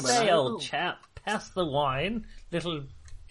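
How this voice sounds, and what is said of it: Posh upper-class accent. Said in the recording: “We can all talk like nobles ... we sound like nobles ... I can mimic accents that we've heard, so I'll talk like someone we heard in the posh restaurant”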